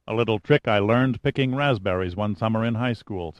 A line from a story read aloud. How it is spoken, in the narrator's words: said Pitt curtly